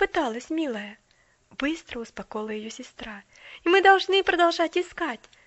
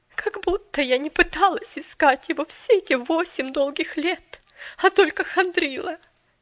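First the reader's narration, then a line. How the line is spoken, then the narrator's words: Majestic flare with sob. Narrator (Russian): Величественно вспыхнула мисс Керри с рыданием в голосе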